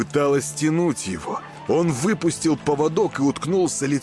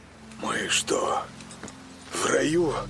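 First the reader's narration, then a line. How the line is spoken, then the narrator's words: Uncertain whisper. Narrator (Russian): Неуверенно прошептал он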